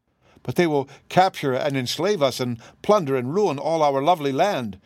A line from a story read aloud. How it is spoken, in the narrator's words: exclaimed the wizard, greatly disturbed by this statement